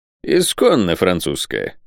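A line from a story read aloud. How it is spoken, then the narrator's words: Dry reply. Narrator (Russian): сухо ответил капитан Сервадак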